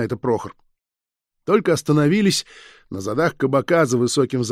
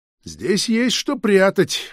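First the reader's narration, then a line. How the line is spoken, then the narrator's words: Cheerful official. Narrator (Russian): весело проговорил чиновник особых поручений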